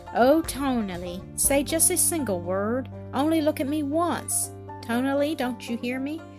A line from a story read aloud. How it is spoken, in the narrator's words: In tender tones, the mother continued mournfully